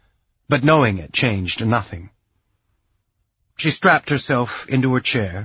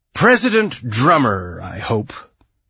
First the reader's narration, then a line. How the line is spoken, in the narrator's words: he drawled like someone from the Mariner Valley